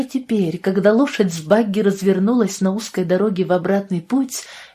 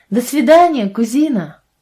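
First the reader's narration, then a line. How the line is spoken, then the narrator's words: Shouted. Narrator (Russian): прокричала Мэнди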